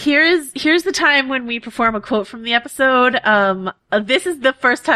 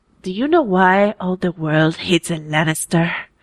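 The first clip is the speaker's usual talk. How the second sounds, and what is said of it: Impression of a TV character's voice. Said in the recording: “do a Martell impression ... that's my that's my Oberyn Martell ... impression”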